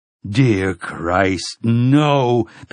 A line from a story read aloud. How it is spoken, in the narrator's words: Pimley Prentice moaned